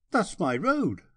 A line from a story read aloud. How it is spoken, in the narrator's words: I cried